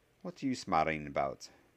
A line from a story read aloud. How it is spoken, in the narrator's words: inquired Professor McGonagall warily and wearily